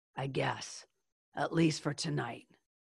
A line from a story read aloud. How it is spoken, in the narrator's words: in her tough voice, she said